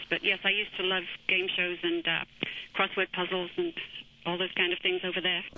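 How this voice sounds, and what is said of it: British Manchester accent. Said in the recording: “Do you have a British accent? ... I'm from Manchester, England”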